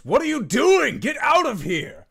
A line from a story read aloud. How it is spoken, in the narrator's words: he just yells